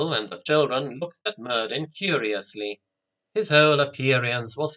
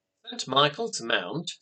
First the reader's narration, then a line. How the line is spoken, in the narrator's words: said excitedly